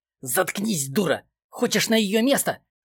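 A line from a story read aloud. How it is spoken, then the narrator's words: Angry hiss in ear. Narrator (Russian): Зло прошипел Эдуард в ухо Нине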